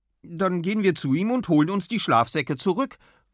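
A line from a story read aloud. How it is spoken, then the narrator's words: Fiercely determined call. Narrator (German): ruft Tilda wild entschlossen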